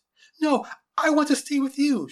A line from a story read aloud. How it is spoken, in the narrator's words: she cried